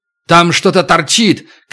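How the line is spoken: Shout. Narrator (Russian): крикнул Туран

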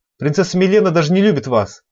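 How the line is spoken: Angry servant snapping. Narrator (Russian): Зло бросила служанка

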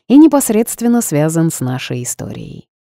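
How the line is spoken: Boss's snort. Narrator (Russian): хмыкнул босс

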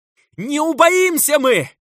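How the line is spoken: Frail man's frenzied shout. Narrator (Russian): закричал в ответ тщедушный отец Микаил, окончательно слетевший с катушек и потерявший последнее представление об окружающей его реальности

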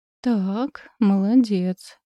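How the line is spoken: Uncertain. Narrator (Russian): неуверенно сказала я

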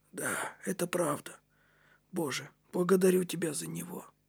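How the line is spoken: Whisper. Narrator (Russian): шептал Кнут

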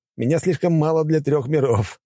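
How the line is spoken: Laughing. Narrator (Russian): рассмеялся я

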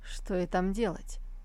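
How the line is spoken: Hesitant mumble after pause. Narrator (Russian): Тот помолчал, нерешительно промямлив

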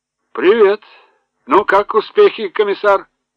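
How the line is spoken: Loud bark, flushed colonel. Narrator (Russian): Гаркнул красный, как рак, полковник Шлиске

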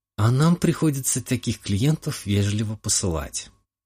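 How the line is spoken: Sigh. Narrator (Russian): вздохнула Ника

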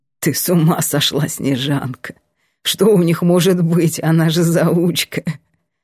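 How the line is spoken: Quiet guffaw. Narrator (Russian): Лавр тихо ржет

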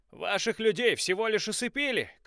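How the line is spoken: Shouted. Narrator (Russian): крикнул Джеймс Бриджер

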